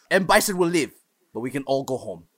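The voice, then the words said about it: Bad Jean-Claude Van Damme impression. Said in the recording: “Jean Claude Van Damme ... the Street Fighter speech he gives ... That's a horrible impression.”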